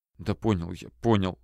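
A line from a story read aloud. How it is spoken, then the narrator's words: Whisper. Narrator (Russian): прошептал Толя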